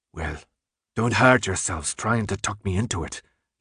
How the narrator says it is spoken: he finally growled

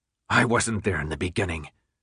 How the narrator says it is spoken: Jansen said in a level voice

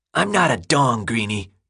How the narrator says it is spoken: Gally spat

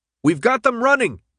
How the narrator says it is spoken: Minho yelled

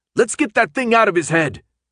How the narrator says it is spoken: Minho yelled at Hans

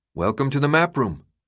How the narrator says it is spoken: Minho said

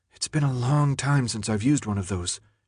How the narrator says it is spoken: she whispered to Thomas

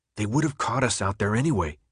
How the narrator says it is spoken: he answered quietly, his lips barely moving

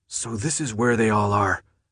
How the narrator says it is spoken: Minho breathed

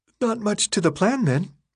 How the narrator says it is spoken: Teresa yawned, as if life were completely normal

